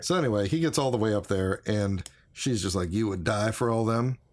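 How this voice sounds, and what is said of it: Very slight Southern accent. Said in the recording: “I slip everybody into a Southern accent, a very slight Southern accent.”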